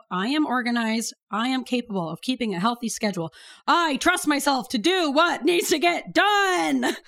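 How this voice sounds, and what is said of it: Fun sing-song chanting voice. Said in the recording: “in that fun chanting voice ... I do like the fun chant”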